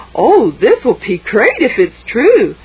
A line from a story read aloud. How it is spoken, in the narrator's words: Maddie said happily